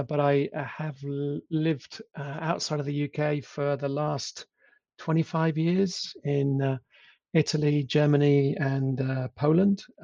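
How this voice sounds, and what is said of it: English accent. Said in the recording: “I am English, as you can probably tell from my accent”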